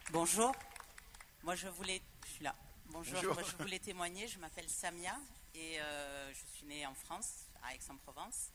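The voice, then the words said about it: Audible regional French accent. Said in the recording (French): “On l'entend... mon accent.”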